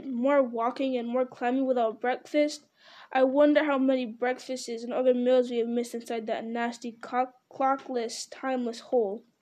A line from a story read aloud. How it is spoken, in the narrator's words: grumbled the hobbit